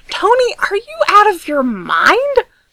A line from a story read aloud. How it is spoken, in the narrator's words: She shrieked